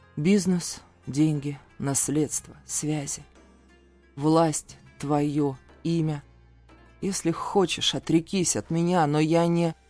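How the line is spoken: Unhesitating, slow enumeration. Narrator (Russian): не задумываясь, ответил я, медленно перечисляя

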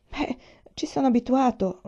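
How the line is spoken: Stammering. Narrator (Italian): balbettò

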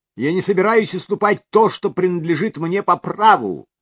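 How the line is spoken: Shout after someone. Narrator (Russian): крикнула Сесили вслед мужу

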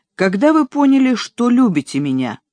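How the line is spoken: Abrupt, resolute question. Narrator (Russian): Он набрал в легкие воздуха, резко повернулся к Энн и спросил

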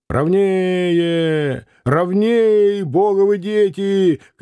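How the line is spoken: Chesty excited anxious shout. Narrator (Russian): кричал делатель пивных бутылок грудным голосом восторженно и тревожно

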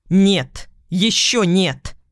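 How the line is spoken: Barked. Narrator (Russian): рявкнула

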